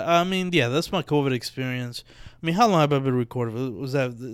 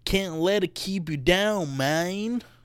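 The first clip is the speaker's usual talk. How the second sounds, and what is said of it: Put-on southern accent. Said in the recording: “maybe I just found I could do a southern one ... I don't know what the fuck that accent is. It was good the first time. The second time, that man, I didn't like it.”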